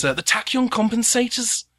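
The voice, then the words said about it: Put-on accent for a character. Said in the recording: “I have to steel myself for this accent because I've been thinking about this one for a while”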